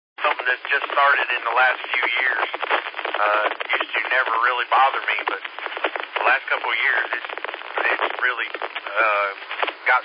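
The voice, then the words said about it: Congested, stuffy sinus voice. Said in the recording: “Your voice sounds a little bit different than it does... my sinuses are giving me a fit, so that's why I sound different right now.”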